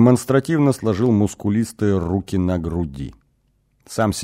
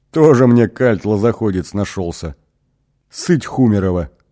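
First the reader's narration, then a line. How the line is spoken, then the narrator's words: Short laugh. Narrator (Russian): хохотнул татуированный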